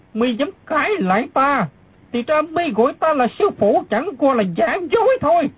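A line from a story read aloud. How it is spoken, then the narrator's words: Dark, angry. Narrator (Vietnamese): Đinh Xuân Thu sa sầm nét mặt, tức giận nói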